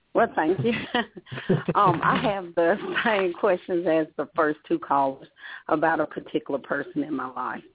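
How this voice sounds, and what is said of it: Pleasant Georgia accent. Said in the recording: “you have a lovely accent. It just makes me feel all warm and fuzzy, just like the peaches.”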